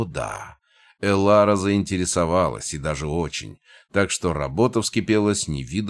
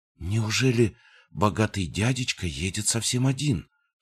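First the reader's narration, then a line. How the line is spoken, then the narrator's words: Whisper. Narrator (Russian): прошептал один из подпольщиков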